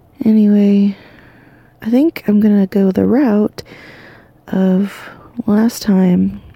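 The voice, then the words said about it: Tired, sleepy, fading voice. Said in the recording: “extra sleepy ... just drained ... losing my voice a little bit”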